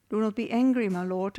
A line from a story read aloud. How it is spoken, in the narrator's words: Aaron answered